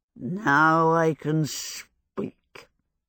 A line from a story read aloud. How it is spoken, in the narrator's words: it said, in a somewhat mushy voice